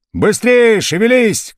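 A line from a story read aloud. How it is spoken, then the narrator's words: Shouted. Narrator (Russian): кричал Евдокимов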